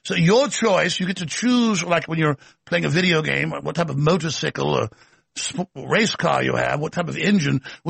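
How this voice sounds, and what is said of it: Put-on posh English accent. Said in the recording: “a posh English accent”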